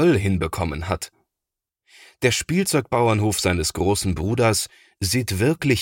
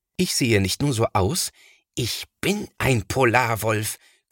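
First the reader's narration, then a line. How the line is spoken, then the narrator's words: Growl. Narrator (German): knurrt Thomas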